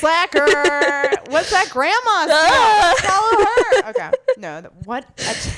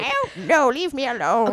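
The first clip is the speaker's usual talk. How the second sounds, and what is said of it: Old grandmother character voice. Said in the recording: “It's my grandma voice.”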